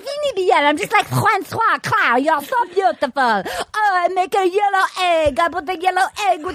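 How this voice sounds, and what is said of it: Exaggerated French accent, Gerard Depardieu. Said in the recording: “French accent... my most racist accent ever. Every accent I do is racist... I'm Gerard Depardieu... Exactly, that's the accent”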